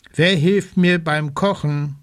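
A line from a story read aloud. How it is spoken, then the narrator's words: Plain question. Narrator (German): fragt sie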